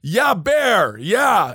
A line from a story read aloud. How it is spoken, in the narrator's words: shout